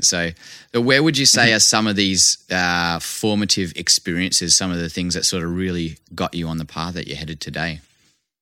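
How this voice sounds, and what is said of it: Australian accent. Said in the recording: “I have an Aussie accent”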